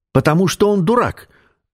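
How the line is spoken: Shrieking. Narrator (Russian): взвизгнула

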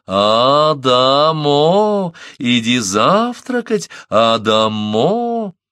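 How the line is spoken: Tender, caressing voice. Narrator (Russian): снова заводила нежным, ласкающим голосом

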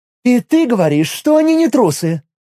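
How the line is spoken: Belligerent exclamation. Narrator (Russian): воинственно воскликнула Миром

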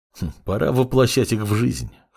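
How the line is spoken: Snort. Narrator (Russian): хмыкнул Синзи

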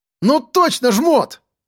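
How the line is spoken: Boy shouting. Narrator (Russian): прокричал пацан

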